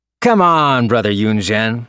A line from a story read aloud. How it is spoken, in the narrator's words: I called in a loud voice